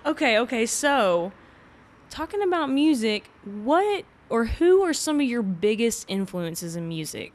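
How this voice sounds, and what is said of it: Texas accent. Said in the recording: “a very annoying Texas accent”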